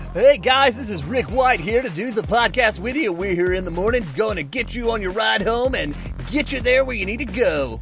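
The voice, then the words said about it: Morning radio DJ voice. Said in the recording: “trying my morning DJ voice”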